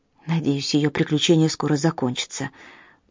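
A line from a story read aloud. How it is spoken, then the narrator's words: Muttering. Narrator (Russian): пробормотала доктор Макмиллан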